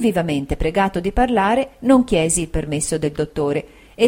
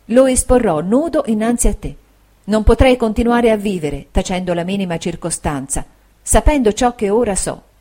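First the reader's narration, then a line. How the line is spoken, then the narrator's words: Soft, low, tender. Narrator (Italian): ella disse con voce piana, sommessa e tenera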